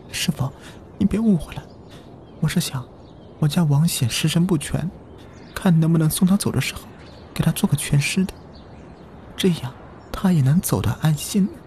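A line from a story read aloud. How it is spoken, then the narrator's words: Tearful wife. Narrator (Chinese): 王显的老婆带着哭腔说道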